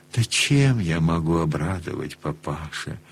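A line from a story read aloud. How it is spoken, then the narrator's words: Wry, sad, strained. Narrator (Russian): Чуть усмешливо, грустно, с трудом выговорил он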